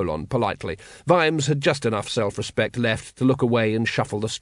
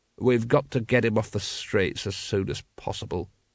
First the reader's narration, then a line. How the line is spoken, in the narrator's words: he muttered